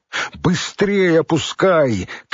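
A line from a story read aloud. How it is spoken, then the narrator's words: Shouting downward. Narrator (Russian): крикнул он вниз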